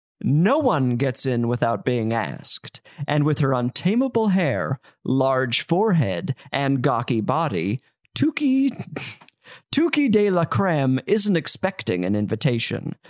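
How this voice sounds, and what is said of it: Exaggerated formal book-reading voice. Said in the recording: “put on my best reading voice.”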